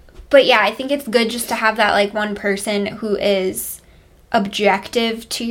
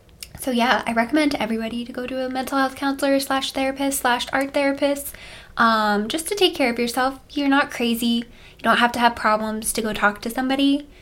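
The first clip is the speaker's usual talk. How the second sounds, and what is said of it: Polished advertisement-style voice. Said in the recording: “I have like my telephone voice on. Yeah, you have like your advertisement. ... My advertisement voice.”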